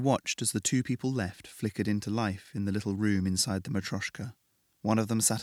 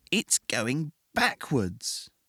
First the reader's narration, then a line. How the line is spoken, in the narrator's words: Ross excitedly